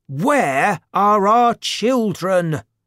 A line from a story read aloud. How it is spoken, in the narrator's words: they shouted